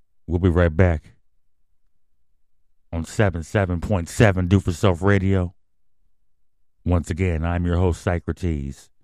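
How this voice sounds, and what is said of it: Deep smooth radio announcer voice. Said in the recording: “I got that radio voice.”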